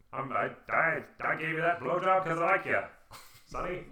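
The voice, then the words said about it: Old-timey movie accent. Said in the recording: “her accent was... That old-timey accent, or it sounded like that, which, you know, always sounds like this. I talk like this”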